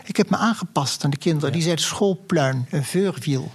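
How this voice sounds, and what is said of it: Posh, refined Dutch speech. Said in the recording (Dutch): “Ik praat heel deftig. Weet je waarom ik zo deftig praat? Omdat ik op een deftig schooltje zat.”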